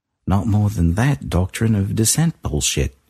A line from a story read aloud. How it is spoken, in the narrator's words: he said